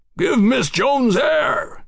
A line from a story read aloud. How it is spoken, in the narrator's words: Houston commanded, an excited bellow